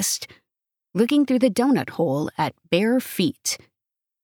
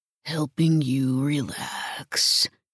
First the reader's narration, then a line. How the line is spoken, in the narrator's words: he murmured, the gravel in his voice like a San Francisco tremor in the quiet room